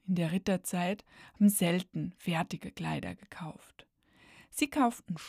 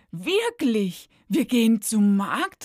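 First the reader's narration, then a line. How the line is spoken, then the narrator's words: Very excited exclamation. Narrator (German): rief sie ganz aufgeregt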